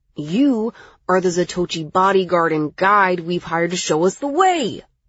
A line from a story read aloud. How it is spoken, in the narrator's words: Miles exclaimed